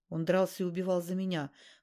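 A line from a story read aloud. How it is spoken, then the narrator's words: Grim. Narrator (Russian): мрачно сказал Ласковин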